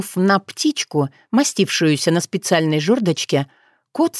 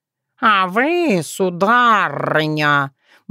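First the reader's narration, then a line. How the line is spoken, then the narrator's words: Cat purring. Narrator (Russian): Мурлыкнул кот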